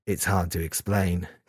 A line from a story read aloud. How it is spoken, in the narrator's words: Kazuya said quietly